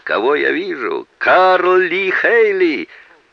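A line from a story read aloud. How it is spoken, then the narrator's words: Joyful shout. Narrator (Russian): радостно закричал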